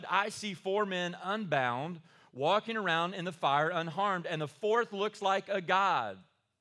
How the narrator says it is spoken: Nebuchadnezzar shouted

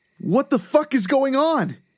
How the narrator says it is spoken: he called out

